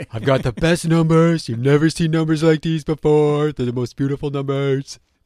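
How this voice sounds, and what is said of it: Imitates another person's voice. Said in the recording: “you've perfected that accent”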